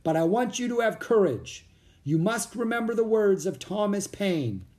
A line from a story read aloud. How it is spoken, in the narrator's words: the man shouted above the wind